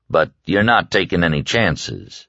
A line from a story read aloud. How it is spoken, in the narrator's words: Stu said dryly